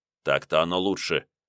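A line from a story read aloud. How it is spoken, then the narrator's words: Calm. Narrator (Russian): спокойно произнес Илья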